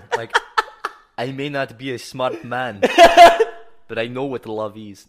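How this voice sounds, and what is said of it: Put-on Russian-sounding accent. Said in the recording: “Why am I doing a Russian accent? ... Is that your Hitler accent? ... I just don't know how to do a German accent. ... That's like Norwegian.”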